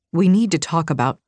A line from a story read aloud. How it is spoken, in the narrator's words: He murmured